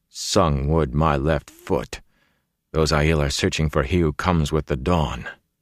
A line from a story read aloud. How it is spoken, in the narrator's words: Perrin muttered